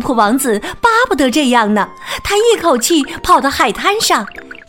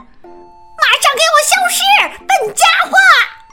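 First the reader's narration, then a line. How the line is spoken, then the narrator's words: Parrot's loud shout. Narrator (Chinese): 鹦鹉大声喊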